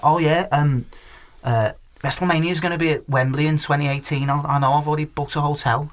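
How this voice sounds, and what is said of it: Deliberately bad Scouse accent. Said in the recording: “Two Scouse lads ... I'm sorry if you're a Scouser, I'm going to massacre your accent now.”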